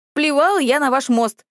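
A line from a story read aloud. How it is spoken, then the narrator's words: Echoing shout. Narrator (Russian): крикнула я, и над рекой прокатилось эхо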